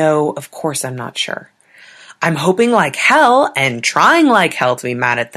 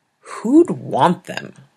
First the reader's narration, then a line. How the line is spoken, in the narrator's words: said wearily